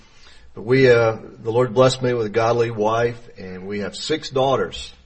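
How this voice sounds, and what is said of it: Southern US Georgia accent. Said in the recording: “She's a Georgia girl. I'm a Georgia boy. So the accent... If we have a Southern interpreter here”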